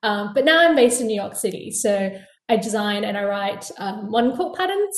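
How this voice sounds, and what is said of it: Australian accent. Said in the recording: “I'm originally from Perth, Australia. So you can probably hear it in my voice.”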